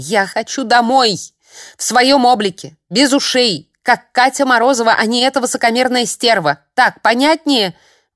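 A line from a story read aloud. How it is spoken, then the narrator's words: Shouted, heavy breathing. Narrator (Russian): Выкрикнув это, я застыла, тяжело дыша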